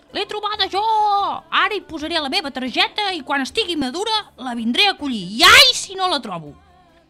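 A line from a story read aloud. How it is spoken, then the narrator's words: Shouting. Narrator (Catalan): L'altre cridava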